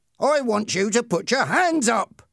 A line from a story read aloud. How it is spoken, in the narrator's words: Ernie shouted at him